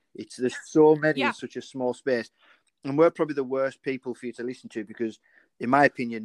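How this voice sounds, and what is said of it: Broad northwest English Cumbrian accent. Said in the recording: “where I'm from in the northwest in Cumbria ... I'm quite broad, like, you know, mine's weird as well. And I get mistaken sometimes for Scouse, for Welsh, for Geordie”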